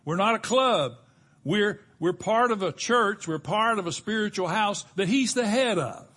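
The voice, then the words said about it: Raised, loud preaching voice. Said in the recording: “I know I'm raising my voice a little bit”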